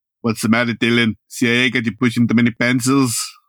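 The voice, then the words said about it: Arnold Schwarzenegger impression. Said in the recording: “best Arnold impression”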